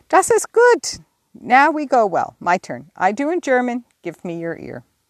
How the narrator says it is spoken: cried out in his hearty way

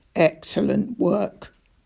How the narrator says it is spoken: growled Roach

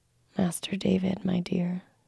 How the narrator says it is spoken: she whispered, sobbing

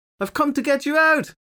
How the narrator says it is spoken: she shouted through the glass

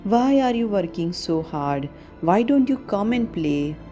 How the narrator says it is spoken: his brother saying with a chuckle

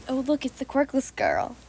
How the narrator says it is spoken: they would whisper

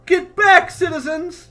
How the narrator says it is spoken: she yells

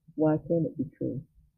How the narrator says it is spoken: Lupin said calmly, as though they were in class, and Hermione had simply spotted a problem in an experiment with Grindelwald

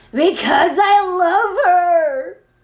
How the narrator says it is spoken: Draco shrieked

